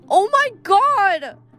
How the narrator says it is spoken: she shouted

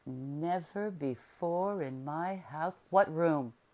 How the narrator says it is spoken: cried the doctor in a terrible voice

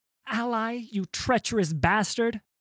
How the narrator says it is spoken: she yelled

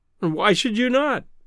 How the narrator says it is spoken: cried

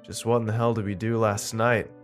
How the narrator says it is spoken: I said sleepily

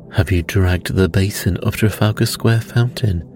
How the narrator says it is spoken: he asked

